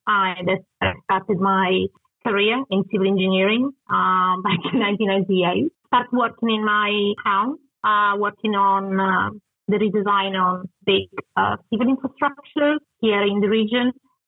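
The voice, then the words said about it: Italian accent. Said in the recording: “Probably understand my accent. I'm originally from Italy.”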